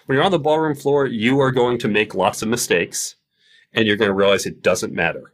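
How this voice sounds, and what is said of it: Polished radio-style voice. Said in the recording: “You know you have a radio voice, right?”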